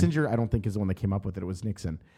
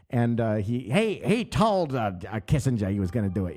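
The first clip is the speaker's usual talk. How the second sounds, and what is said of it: Imitates another person's voice. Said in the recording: “my Nixon impression”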